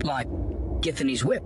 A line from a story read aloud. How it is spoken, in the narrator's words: Bane exclaimed